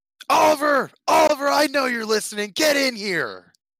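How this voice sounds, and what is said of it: Yelling loudly. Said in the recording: “Why are you yelling”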